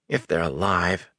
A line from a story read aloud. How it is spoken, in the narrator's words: Matt muttered at his plate